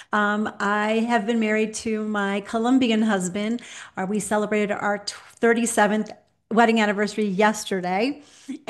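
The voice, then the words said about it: American accent. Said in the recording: “everyone can hear that I don't have any kind of accent except an American accent”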